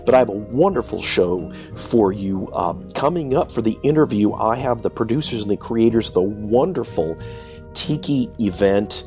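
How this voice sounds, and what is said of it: Voice sounds off from a cold. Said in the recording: “I'm down with a cold ... I sound a little weird ... it's because of this cold”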